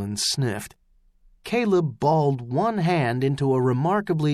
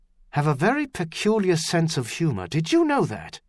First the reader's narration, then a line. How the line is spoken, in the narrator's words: Caleb said through gritted teeth